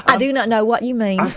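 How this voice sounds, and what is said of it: Put-on American Southern accent. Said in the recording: “what is this accent club today? ... That's very, very southern. ... I can see you now is Daisy Duke.”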